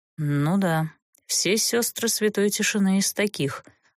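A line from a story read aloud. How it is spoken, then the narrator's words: Grim smirk. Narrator (Russian): мрачно усмехнулся герцог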